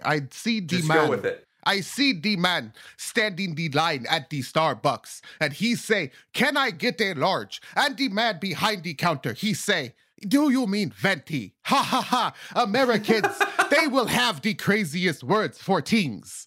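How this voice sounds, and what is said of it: Attempted African accent, poorly done. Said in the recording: “my African bit. That's an African stand-up comedian ... I can't do this accent. Why am I fucked on this accent today?”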